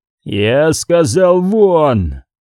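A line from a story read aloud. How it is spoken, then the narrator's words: Roaring in dialect. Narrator (Russian): взревел Пертураба на оденском диалекте лингва технис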